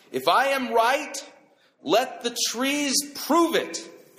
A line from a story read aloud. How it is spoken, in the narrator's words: he shouted out